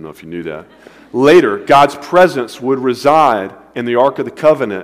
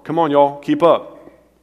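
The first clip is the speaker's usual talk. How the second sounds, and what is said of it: Southern American accent. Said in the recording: “God spoke in a southern accent.”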